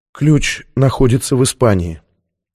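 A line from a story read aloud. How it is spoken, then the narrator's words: Barely audible. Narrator (Russian): еле слышно произнесла Сьюзен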